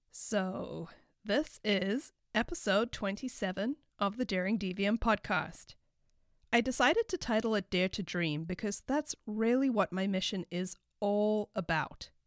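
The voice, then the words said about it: Nasal, congested voice. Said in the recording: “I'm currently recovering from a cold. So if I sound really nasally or congested or something is just off”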